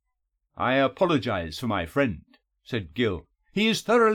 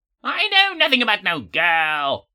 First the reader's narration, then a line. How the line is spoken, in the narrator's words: Gammond screamed